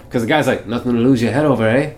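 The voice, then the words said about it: Weak impression sounding a little Irish. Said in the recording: “That's another Arnold impression for you. ... That sounds a little Irish.”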